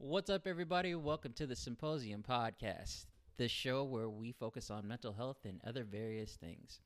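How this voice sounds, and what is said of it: Low-key, subdued voice. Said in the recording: “As you can tell by my voice, we are fucking low key. ... It's a low, low episode. Not sad”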